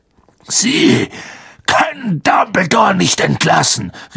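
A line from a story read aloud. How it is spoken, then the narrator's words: Calling. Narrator (German): rief Hagrid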